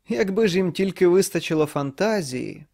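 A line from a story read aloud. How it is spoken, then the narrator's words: Loud noisy laugh. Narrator (Ukrainian): голосно засміявся у спробі здійняти якомога більше шуму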